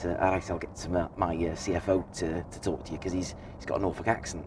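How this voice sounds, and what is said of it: Deliberately bad Scouse accent impression. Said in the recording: “He's a Scouser... I'm going to do a very bad impression, sorry, Dave”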